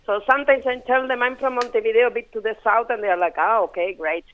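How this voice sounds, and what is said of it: Strong Spanish accent. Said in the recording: “I have a very strong Spanish accent”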